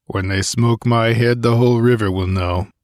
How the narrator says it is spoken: grunted Conan

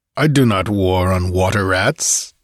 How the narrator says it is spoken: he snorted

